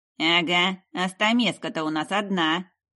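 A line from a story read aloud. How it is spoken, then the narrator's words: Grumbling older man. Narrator (Russian): проворчал седовласый мужчина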